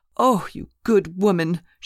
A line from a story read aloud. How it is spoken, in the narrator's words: she cried